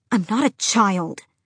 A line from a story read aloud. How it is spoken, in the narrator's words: Adian hissed